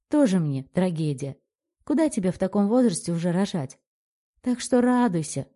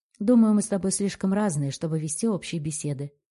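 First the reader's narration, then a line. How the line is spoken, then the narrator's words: Dry reply. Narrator (Russian): сухо отвечаю я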